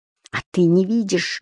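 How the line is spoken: Angry whisper. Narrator (Russian): злобным шепотом откликнулась она

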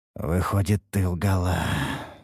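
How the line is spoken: Breathless, in pain. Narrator (Russian): выдохнул я, морщась от боли в многочисленных ранах

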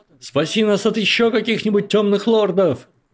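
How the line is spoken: Shout. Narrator (Russian): крикнул один из близнецов Уизли

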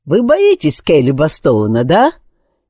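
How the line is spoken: Cheerful question. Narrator (Russian): весело поинтересовался Маклиш

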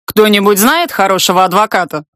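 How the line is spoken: Forced joking tone. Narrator (Russian): Он пытается говорить шутливым тоном, но по лицу видно, что ему не до шуток

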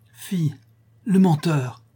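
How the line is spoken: Exclaimed. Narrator (French): s'écria Rigolette

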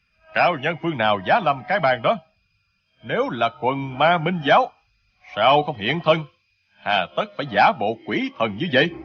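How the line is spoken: Loud. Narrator (Vietnamese): Trần Hữu Lượng lớn tiếng nói

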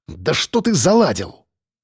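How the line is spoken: Impatient bark. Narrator (Russian): рявкнул, не желая слушать уговоры

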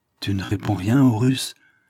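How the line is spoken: Astonished exclamation. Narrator (French): s'exclama tout étonné l'envoyé de Ramsès

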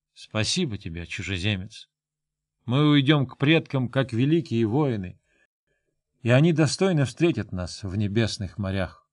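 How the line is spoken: Weary, hopeless voice. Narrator (Russian): Капитан … все померкло, и он устало произнес

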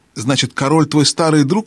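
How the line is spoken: Exclamation. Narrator (Russian): воскликнула Джил

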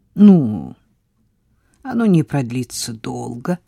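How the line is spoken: Soft moan. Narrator (Russian): тихо простонал Вильям

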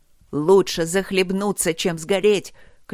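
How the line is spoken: Shouted. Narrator (Russian): крикнул мастер

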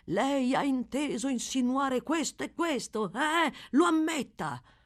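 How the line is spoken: Harsh confrontational shout. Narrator (Italian): gridargli, a muso duro

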